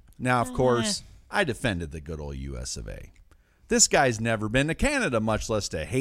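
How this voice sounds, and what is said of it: Usual voice. Nothing is said of it.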